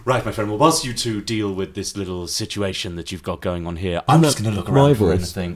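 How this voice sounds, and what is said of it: Creepy posh southern English character voice. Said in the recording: “Isn't that my character voice? ... I think it's a very similar voice ... Mine is a little bit more whatever this ... sex pest ... Bit sex pesting. ... Creepy. ... a little bit weird. ... I just think you're both very southern and posh.”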